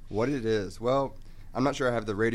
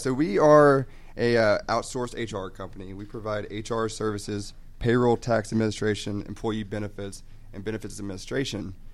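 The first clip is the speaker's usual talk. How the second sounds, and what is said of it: Deep, low radio announcer voice. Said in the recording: “radio voice like Brandon ... I'll do my best impression ... Just kind of go low ... I'll go low with it”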